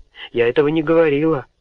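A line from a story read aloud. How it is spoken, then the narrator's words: Angry exclamation. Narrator (Russian): гневно воскликнула Гордыня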